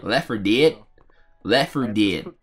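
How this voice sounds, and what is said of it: Put-on country accent. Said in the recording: “I just put on a country accent?”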